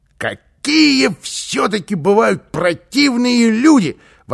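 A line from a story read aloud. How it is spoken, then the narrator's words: Exclamation. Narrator (Russian): воскликнул он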